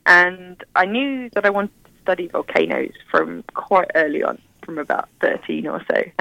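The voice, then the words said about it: British accent. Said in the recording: “You probably tell from my accent, I'm from the UK.”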